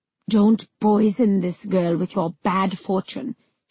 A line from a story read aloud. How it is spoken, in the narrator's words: she hissed